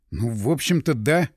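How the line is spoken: Wry snort. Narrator (Russian): хмыкнул я

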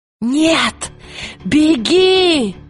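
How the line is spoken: Shouting. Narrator (Russian): крикнула Лира

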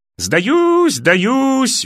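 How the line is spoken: Yelling. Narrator (Russian): вопил нижний карлик

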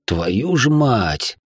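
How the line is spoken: Grumbled. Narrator (Russian): пробурчал кто-то из рейда

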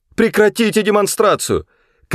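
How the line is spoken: Shouting. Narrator (Russian): крикнула Лоран

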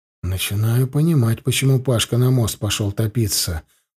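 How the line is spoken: Muttering under breath. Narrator (Russian): пробормотал я себе под нос, стараясь, чтобы бабка не услышала

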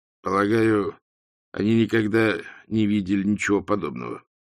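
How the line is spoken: Weak, tentative voice. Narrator (Russian): слабым голосом предположил Ринсвинд

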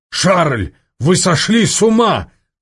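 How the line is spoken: Shouted. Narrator (Russian): крикнул Соболев

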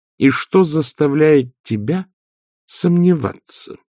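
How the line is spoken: Slow question, mother. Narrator (Russian): медленно спросила матушка

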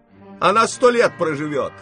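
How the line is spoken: Shouting. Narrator (Russian): крикнула она

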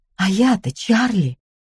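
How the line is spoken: Pained exclamation. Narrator (Russian): воскликнула она с болью в голосе

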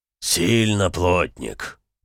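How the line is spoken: Low serious drone. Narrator (Russian): без криков и дурачья прогудел Эмик

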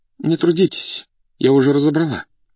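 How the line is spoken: Trembling voice from behind. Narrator (Russian): сказала за спиной дрогнувшим голосом Зинаида Дмитриевна

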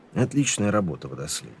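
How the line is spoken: Even, level praise. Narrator (Russian): все тем же ровным голосом похвалил Ваймс

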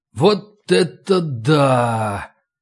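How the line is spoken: Amazed drawl. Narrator (Russian): протянул я

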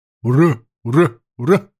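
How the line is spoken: Loud barked cheer in unison. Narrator (Russian): рявкнули егеря

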